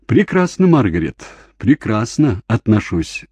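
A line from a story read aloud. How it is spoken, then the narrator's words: Laughing. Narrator (Russian): засмеялся он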